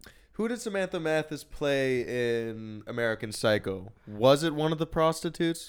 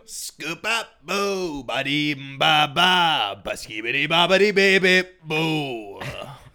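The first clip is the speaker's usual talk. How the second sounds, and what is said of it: Scatting robot droid noises. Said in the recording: “That's my impression of R2 Scat 2.”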